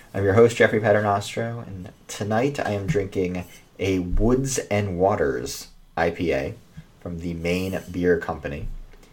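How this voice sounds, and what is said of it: American accent. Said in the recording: “Sheffield Wednesday Opinion with an American accent.”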